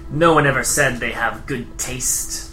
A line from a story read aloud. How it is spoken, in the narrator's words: as he chuckles